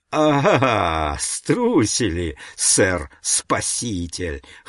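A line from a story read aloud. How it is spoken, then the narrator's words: Guffawing. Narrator (Russian): хохотал Брацана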